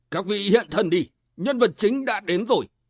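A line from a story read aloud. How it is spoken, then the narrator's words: Deep-voiced shout. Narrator (Vietnamese): trầm giọng quát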